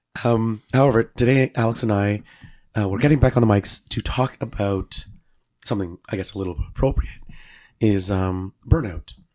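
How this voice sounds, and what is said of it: Hoarse, congested voice. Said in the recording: “we actually sound different... I still have this cold... my voice is a little messed up, as everybody will notice... it's getting a little hard to breathe”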